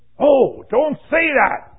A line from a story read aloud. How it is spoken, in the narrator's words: exclaimed the distressed seeker